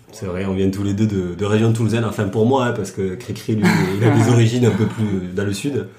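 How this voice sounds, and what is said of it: Strong Toulouse southern French accent. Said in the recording (French): “le même accent ... on l'a tous les deux très marqué, oui, ça s'entend ... on vient de Toulouse, ça s'entend”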